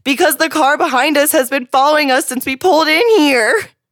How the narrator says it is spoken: He ... yelled

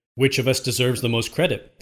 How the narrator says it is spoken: they cried all at once

